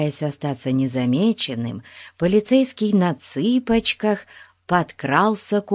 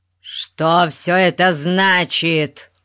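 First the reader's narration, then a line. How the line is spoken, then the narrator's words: Roared. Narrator (Russian): взревел он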